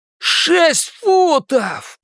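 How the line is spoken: Roar. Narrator (Russian): проревел Генри

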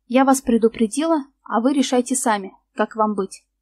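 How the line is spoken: Plain. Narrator (Russian): сказала она

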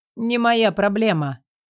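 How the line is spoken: Dismissive. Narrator (Russian): отмахнулся

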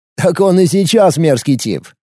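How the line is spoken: Snort. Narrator (Russian): хмыкнул Гарик

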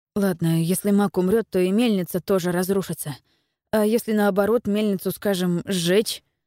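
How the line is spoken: Plain. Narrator (Russian): спросил Эйлерд

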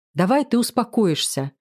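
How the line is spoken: Slightly irritated. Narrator (Russian): немного раздраженно прошу я

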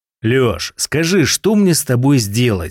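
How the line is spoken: Plain. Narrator (Russian): спросил я

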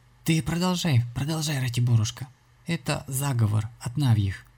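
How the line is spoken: Weak trembling sobbing voice. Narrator (Russian): снова всклипнула и, произнеся слабым дрожащим голосом

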